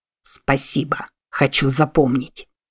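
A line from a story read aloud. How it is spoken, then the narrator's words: Hiss through clenched lips. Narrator (Russian): прошипел Весси сквозь сжатые до бела губы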